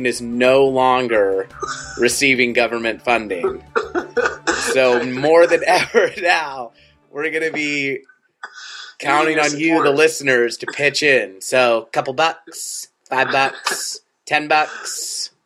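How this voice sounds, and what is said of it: Ira Glass impression. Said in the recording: “my Ira Glass impression”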